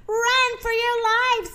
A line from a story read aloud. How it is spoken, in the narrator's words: shouted Zeke